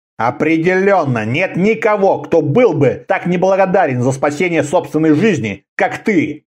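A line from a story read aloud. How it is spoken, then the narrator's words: Grumbling. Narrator (Russian): проворчал Конан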